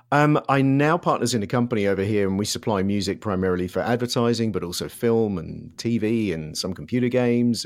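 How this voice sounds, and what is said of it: British London accent. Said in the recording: “we can tell from your accent that you are not from there ... I'm from London”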